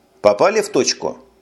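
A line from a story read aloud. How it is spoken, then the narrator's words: Plain. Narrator (Russian): спросил Росс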